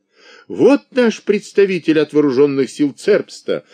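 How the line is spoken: Joyful exclamation, official man. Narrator (Russian): обрадованно воскликнул господин бургомистр

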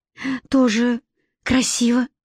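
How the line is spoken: Dejected voice. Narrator (Russian): сказал я сокрушенным голосом

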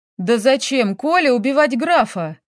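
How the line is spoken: Indignant exclamation. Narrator (Russian): воскликнула Эльвира, охваченная искренним негодованием

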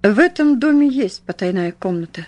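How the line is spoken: Calm speech. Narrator (Russian): спокойно проговорил он

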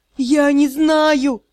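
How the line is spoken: Panicked shout. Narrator (Russian): закричал Скаэн на коленях, пытаясь отползти от бессмертного

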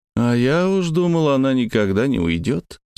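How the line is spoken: Bored voice. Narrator (Russian): скучающим голосом начал

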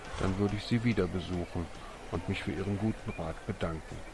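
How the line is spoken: Soft. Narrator (German): sagte leise

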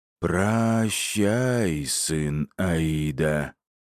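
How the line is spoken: Hoarse ghostly rasp. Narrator (Russian): прохрипела призрачная голова

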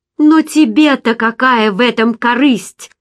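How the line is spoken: Irritated, bitter exclamation. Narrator (Russian): С раздражением и горечью воскликнула я

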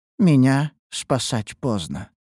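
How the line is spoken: Sudden sad, prisoner. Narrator (Russian): вдруг проговорила узница печальным тоном

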